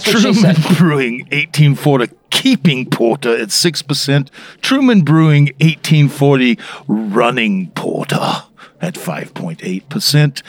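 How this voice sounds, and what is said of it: Put-on accent. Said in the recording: “this accent is phenomenal, though.”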